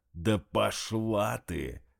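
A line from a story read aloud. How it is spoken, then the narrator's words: Growling. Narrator (Russian): прорычал Дмитрий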